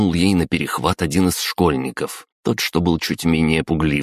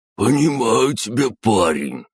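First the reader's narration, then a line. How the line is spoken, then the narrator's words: Old man's wheeze. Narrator (Russian): захрипел один дед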